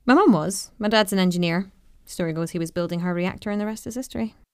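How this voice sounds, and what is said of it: Scottish accent. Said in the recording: “You sound so Scottish.”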